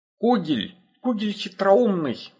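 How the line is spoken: Exclaimed. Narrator (Russian): воскликнул Фианастер

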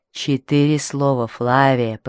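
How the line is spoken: Hissing. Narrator (Russian): прошипел он

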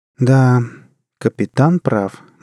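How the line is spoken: Gloomy confirmation. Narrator (Russian): мрачно подтвердила Джанет

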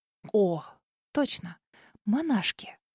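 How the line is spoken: Muttered. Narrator (Russian): Пробормотала я

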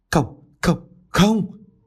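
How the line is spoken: Terrified trembling scream. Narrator (Vietnamese): bà Lộc ú ớ, đột nhiên bà rú lên, run rẩy

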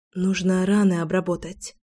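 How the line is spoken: Whisper. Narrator (Russian): прошептала

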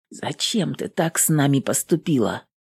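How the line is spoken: Whisper. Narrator (Russian): прошептал он

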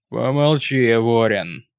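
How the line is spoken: Rude annoyed interruption. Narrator (Russian): грубо оборвал, недовольно

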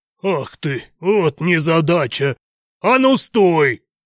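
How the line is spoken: Loud bark, driver. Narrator (Russian): гаркнул водитель

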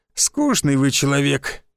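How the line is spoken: Dismissive snort. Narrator (Russian): хмыкнул Шульман

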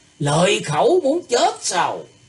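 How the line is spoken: Angry shout. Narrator (Vietnamese): Gã trung niên mặt dài bên phải nổi giận quát lên

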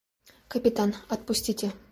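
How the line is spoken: Whispered. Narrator (Russian): прошептала женщина

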